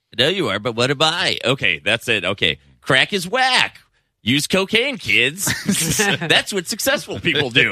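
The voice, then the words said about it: Imitates another person's voice. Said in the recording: “you do an impression of Pee-wee Herman”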